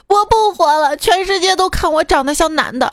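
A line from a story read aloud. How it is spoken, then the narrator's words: Feigned confused crying. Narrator (Chinese): 故作糊涂哭道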